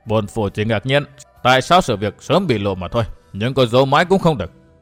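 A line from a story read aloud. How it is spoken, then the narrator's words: Sighing speech. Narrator (Vietnamese): thở dài, tuần phủ đại nhân nói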